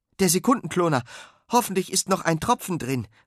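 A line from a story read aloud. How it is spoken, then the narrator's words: Calling. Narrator (German): ruft Sven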